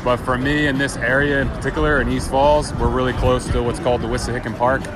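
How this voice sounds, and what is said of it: Philadelphia accent. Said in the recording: “I grew up in Philly, so I say things like water ... So I got my accent”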